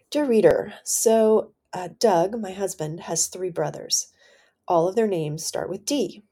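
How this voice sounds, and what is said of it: Voice affected by illness. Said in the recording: “my voice is a little bit impacted from being sick and having COVID”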